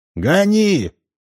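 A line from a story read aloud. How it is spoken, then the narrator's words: Shouting. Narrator (Russian): крикнул он ветерку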